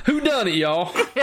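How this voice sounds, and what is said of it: Put-on southern accent. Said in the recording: “In a southern accent.”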